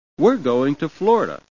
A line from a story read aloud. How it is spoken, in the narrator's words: said brightly